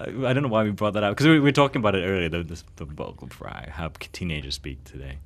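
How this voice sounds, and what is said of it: Usual voice. Nothing is said of it.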